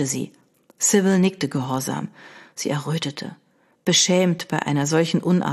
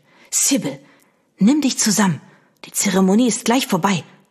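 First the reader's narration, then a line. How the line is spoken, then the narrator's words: Hissed. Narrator (German): zischte ihre Mutter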